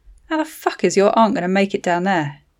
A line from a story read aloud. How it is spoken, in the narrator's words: Jacob muttered